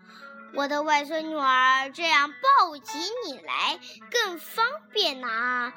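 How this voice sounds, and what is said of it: Wolf faking grandma's voice. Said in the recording (Chinese): “大灰狼装着姥姥的声音说”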